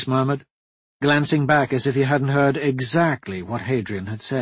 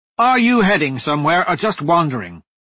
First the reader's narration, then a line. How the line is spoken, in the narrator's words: Hadrian shouted